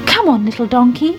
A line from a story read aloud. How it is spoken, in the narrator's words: he said